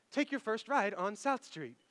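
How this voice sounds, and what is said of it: Imitated GPS voice-assistant voice. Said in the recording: “It's my Siri accent.”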